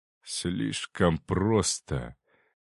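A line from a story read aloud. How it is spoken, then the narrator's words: Barely audible mutter. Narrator (Russian): Едва слышно пробормотал он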